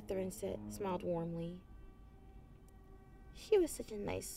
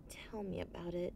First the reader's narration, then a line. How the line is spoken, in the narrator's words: the young griffin sighed